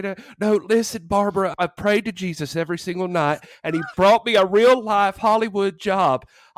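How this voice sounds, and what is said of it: Put-on Southern accent. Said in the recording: “I love that you gave him a Southern accent ... and not a Baltimore accent”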